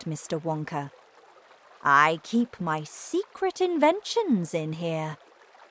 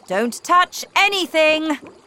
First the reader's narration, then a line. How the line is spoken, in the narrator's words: shouted Mr